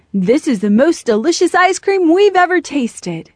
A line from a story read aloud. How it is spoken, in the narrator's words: They all exclaimed